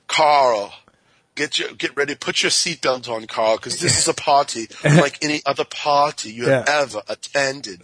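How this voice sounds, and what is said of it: Imitates another person's accent. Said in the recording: “I love having Jason on because of his accent ... my impression's ... it was actually pretty good, actually”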